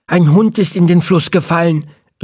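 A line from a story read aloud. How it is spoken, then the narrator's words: Calling with egg-smeared mouth. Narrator (German): rief er mit eiverschmiertem Mund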